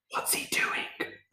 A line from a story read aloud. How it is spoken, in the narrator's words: Ricky whispered